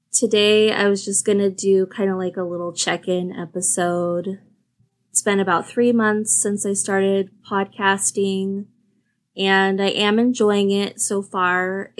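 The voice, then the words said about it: Tired, low-energy voice. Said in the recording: “I had a horrible night's sleep last night and just not feeling great today, super low energy. So if you hear that in my voice”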